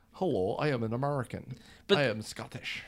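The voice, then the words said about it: Gerard Butler's bad American accent slipping Scottish. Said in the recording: “Gerard Butler ... His American accent was awful. It changed in every scene.”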